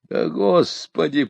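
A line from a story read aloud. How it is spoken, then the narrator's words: Groaning. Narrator (Russian): простонал я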